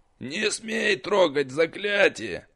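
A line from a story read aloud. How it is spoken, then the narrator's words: Furious hiss. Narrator (Russian): Разъяренно прошипел учитель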